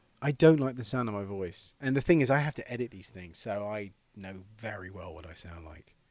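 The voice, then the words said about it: English accent. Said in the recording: “your sexy English accent”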